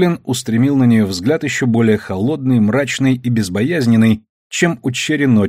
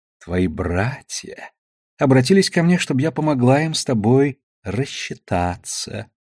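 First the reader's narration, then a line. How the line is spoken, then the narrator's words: Purring. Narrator (Russian): промурлыкала Душелов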